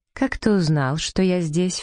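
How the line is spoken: Insinuating, ingratiating question. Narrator (Russian): вкрадчиво спросила она

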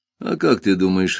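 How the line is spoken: Laughing. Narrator (Russian): рассмеялся он

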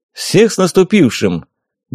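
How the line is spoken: Cheerful smiling greeting. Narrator (Russian): бодро поздравил, широко при этом улыбаясь

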